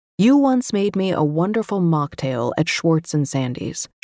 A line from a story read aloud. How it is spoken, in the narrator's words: said